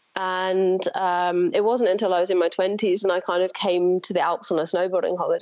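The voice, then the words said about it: English accent. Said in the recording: “your accent and also your website both make me think England.”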